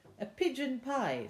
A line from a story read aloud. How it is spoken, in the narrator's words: said Peter eagerly